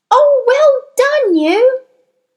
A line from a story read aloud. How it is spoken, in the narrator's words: Matilda cried